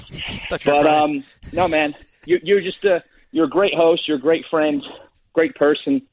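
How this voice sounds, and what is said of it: Out of breath, breathless speech. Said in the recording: “I just ran up the stairs to get away from the kids. That's why I'm out of breath.”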